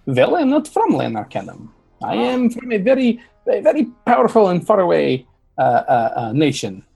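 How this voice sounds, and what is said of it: Unfamiliar foreign-sounding accent. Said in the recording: “I can't place your accent ... I've never heard that accent before”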